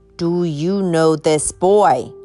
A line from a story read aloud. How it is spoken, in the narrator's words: repeated Kotler in a louder voice